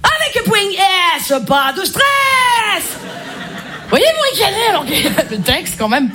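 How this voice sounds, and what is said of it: Marseille French accent. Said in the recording (French): “Je suis marseillaise ... l'accent marseillais ... t'as l'accent marseillais”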